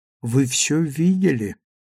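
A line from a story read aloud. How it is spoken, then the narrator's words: Very quiet question. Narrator (Russian): спросила очень тихо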